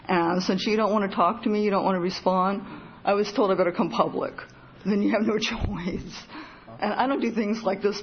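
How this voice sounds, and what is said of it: Terrified, nervous-sounding voice. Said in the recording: “you can hear in my voice. I'm just terrified.”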